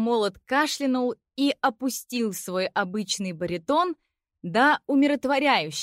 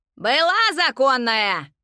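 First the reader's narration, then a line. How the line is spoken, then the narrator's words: Demonic cackling. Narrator (Russian): демонически захохотала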